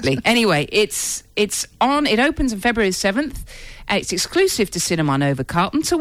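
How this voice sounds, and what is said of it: Usual voice. Nothing is said of it.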